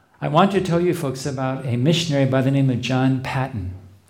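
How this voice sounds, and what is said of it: Noticeable non-native accent. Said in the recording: “my accent will not get in the way of people understanding”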